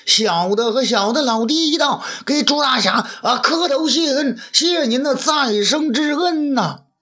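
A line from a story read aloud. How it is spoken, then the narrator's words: Clamoring. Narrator (Chinese): 申猴子口中嚷嚷道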